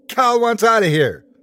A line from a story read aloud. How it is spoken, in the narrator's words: the man who shouted